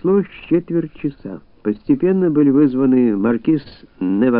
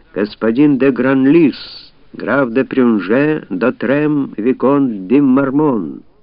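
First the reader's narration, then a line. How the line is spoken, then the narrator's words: Loud formal announcement. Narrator (Russian): слуга произнес своим громким голосом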